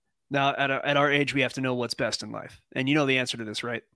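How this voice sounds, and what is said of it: Usual voice. Nothing is said of it.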